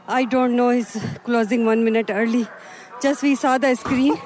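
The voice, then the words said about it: Out of breath, panting. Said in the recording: “you're out of breath. ... You're out of breath. We're running.”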